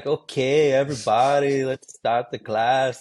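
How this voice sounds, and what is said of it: Put-on Brazilian accent. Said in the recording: “Brazilians are everywhere ... talk with that accent”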